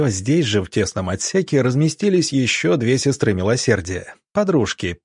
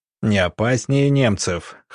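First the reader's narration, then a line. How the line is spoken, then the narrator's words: Chuckling. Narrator (Russian): хохотнув, Сидоренко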